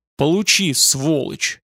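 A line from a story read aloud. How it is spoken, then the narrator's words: Fierce hiss. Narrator (Russian): прошипел люто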